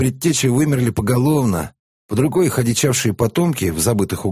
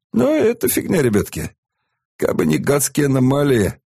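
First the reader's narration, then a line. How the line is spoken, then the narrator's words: Sad. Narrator (Russian): грустно рассказывал Шуя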